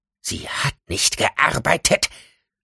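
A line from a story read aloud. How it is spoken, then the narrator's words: Hissing snap. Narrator (German): fauchte Penelope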